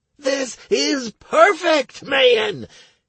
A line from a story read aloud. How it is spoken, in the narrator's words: exclaimed Noom